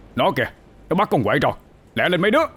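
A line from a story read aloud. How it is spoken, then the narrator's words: Urgent loud shout. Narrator (Vietnamese): thầy ba hét lớn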